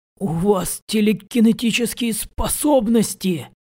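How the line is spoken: Exclaiming. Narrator (Russian): воскликнул он

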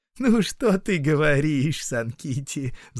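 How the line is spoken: Laughing woman. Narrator (Russian): засмеялась Отоне

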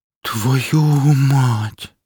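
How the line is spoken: Shaken, breathless exclamation. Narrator (Russian): выдохнула Мария, стараясь скрыть дрожащие ладони

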